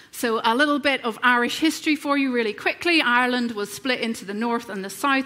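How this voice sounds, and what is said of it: Northern Irish accent. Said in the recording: “I grew up in Northern Ireland, if you hadn't already guessed by my accent”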